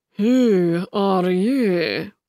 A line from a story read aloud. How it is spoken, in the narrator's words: He asked Alice with a yawn